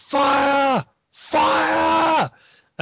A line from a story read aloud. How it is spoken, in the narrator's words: shouts